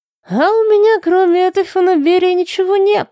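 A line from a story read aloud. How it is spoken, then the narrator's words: Laughing. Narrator (Russian): засмеялся Гризье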